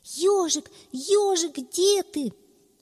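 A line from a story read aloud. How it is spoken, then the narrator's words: Shouting. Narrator (Russian): кричал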